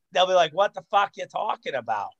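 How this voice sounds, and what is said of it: Weak put-on Boston accent. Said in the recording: “my weak Boston accent”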